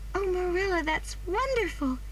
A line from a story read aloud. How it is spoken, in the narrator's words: cried Anne